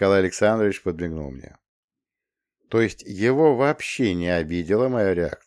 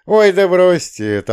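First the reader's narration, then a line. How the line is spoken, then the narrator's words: Fat man, loud laughter. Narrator (Russian): толстяк громко, неприлично громко рассмеялся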